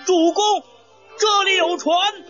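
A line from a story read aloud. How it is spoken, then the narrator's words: Calling out. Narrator (Chinese): 赵云叫道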